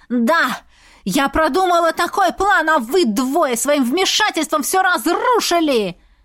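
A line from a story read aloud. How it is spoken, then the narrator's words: Witch's shriek. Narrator (Russian): завопила ведьма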